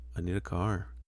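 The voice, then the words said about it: Flat monotone imitated voice. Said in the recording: “that Tobey Maguire monotone voice ... you're not doing it right.”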